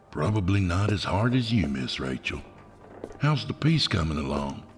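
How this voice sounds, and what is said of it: Older man with Southern accent. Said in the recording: “his southern accent slipping through”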